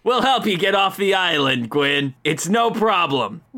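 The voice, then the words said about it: Anime dub style character voice. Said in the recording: “you sound like a Naruto dub. ... there's a character from Naruto, and I keep hearing you”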